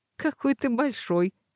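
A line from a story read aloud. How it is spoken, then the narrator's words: Laughing. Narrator (Russian): рассмеялась я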